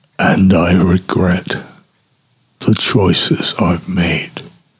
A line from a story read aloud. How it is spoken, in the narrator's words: whispers